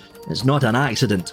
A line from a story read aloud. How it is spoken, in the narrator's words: said